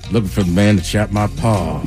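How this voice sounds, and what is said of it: Put-on Southern drawl. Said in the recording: “Are you going to say that Southern drawl?”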